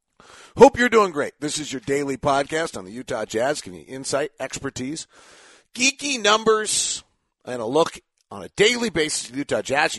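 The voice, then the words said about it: Tired-sounding voice. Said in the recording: “Tired voice today.”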